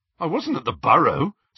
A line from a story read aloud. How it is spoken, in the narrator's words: said Ron with an incredulous laugh